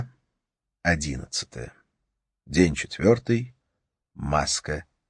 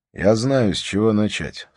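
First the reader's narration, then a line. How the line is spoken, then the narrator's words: Plain. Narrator (Russian): сказал Харри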